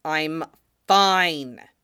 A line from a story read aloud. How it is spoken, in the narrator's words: Fox snapped at Thier